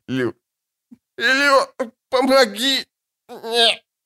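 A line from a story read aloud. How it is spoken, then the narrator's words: Wheezing, rasping. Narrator (Russian): Дегерлунд захрипел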